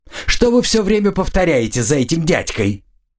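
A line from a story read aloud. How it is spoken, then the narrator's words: Loud shout. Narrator (Russian): заорала на весь лагерь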